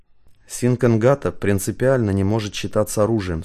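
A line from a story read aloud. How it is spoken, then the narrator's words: Plain. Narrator (Russian): сказал хранитель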